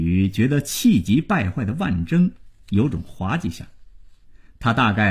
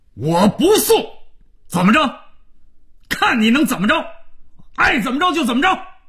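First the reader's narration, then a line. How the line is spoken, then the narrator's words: Suddenly much louder voice. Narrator (Chinese): 声音突然提高数倍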